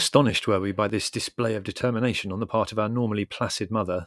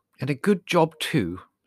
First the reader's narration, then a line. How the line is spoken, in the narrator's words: said Mother grimly